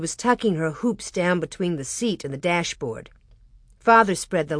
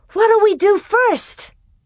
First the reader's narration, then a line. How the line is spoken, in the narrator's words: Alice hugged herself and cried